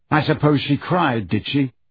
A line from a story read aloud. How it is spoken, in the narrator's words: said Harry bitterly